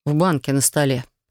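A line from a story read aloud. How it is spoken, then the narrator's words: Plain. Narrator (Russian): ответил он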